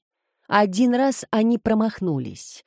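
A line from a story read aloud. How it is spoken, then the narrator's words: Calm. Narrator (Russian): спокойно ответил Марио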